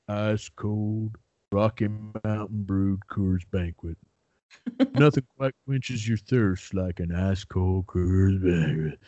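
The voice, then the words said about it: Sam Elliott impression. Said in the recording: “I do an impeccably good Sam Elliott impression ... I thought it was pretty good, man”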